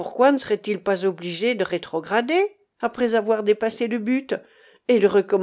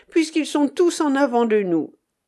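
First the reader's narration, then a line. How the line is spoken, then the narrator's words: Exclaimed. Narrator (French): s'écria Monsieur Tilbury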